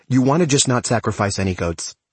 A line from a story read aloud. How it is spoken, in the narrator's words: So I blurt out